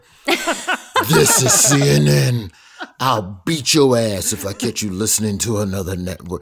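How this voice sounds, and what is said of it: Deep, fatherly announcer voice. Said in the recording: “they even hired James Earl Jones to make it feel like it's your father ... deep voice guy”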